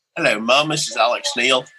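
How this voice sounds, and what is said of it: Slight put-on Australian accent. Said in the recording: “had a bit of an Australian accent.”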